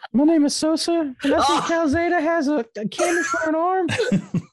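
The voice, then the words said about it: Poor imitation of another person's voice. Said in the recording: “That was terrible Sosa impression. That's a terrible Sosa impression”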